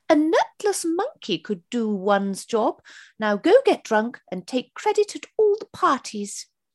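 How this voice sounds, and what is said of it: Good impression of the Queen. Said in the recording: “which I'm going to do in the style of Her Majesty ... That's a quite good impression”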